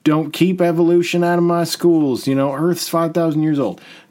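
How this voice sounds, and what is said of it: Put-on Southern American accent. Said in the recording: “slip into a Southern accent”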